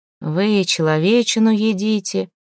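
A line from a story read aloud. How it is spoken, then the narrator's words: Hollow muffled question. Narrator (Russian): глухо спросил Святослав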